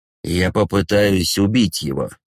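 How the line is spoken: Grim. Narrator (Russian): мрачно говорит Райан, сжимая кулаки до побелевших костяшек

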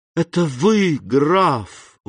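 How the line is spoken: Exclaimed, almost joyfully. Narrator (Russian): воскликнул Морель стремительно, почти радостно

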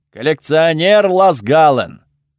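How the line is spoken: Loud speech. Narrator (Russian): громко заговорил он

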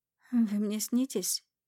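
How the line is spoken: Sleepy disbelief. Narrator (Russian): Сонно проговариваю, не веря своим глазам

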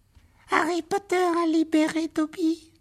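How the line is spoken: Small high-pitched cry. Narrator (French): s'écria l'elfe d'une petite voix aiguë

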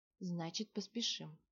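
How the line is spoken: Calm. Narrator (Russian): спокойно сказала ведунья

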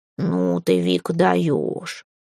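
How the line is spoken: Snorting. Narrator (Russian): фыркнул

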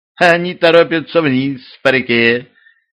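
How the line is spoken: Small childlike voice. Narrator (Russian): детским голоском откликнулся скрутившийся в вихре снег

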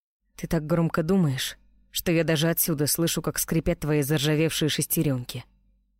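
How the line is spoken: Grumbling. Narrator (Russian): буркнул Роу

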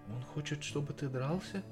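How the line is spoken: Very gentle. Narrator (Russian): выразилась она очень мягко

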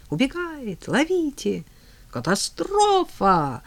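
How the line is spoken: Yelling. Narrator (Russian): орала Лиза

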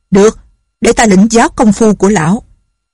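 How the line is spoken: Impatient woman shouting. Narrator (Vietnamese): Không nhẫn nại được nữa, bà quát

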